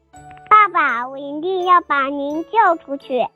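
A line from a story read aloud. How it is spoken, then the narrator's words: Frightened scream. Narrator (Chinese): 贝尔吓得大叫了起来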